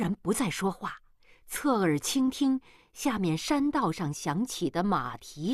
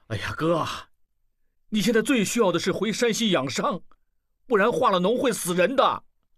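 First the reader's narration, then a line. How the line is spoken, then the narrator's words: Loud, impatient. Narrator (Chinese): 望石不愿意听下去，大声说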